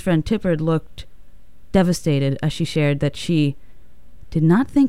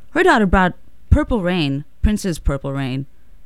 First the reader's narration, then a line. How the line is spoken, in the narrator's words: Susan looked at her friend, Tipper Gore, and exclaimed